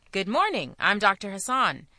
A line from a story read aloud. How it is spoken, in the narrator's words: he said cheerfully